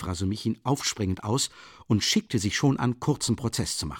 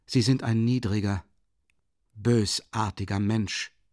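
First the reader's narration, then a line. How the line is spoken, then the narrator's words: Plain. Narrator (German): sagte Dunja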